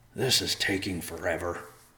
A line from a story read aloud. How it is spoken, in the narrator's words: Riverpaw whispered to Evercloud